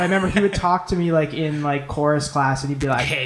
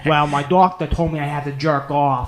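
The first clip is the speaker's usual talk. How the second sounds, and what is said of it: Imitated Boston accent. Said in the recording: “he has a Boston accent.”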